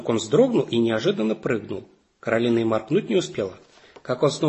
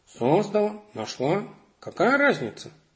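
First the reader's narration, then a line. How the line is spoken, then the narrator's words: Grumbling cat. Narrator (Russian): проворчал кот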